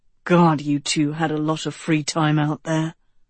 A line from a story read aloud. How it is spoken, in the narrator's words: Tedros muttered into the mirror